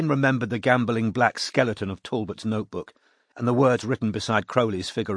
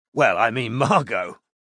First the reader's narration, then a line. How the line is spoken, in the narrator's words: he said, with a small snort of laughter